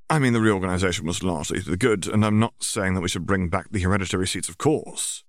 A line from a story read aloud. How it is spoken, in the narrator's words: Draco added hastily